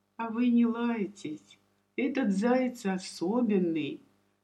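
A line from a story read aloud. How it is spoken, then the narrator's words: Hoarse whisper. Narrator (Russian): хриплым шепотом сказал Ваня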